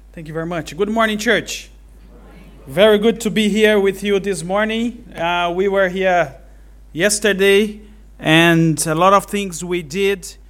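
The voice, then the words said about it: Brazilian-accented English. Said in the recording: “my accent to you is going to be a tough ... I'm Brazilian.”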